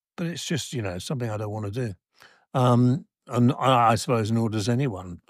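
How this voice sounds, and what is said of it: Slightly croaky, hoarse voice. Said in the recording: “losing my voice ... It's a little bit croaky. It's not anything drastic.”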